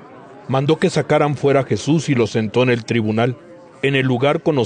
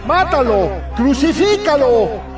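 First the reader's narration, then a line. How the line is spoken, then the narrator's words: Crowd shouting. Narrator (Spanish): Ellos comenzaron a gritar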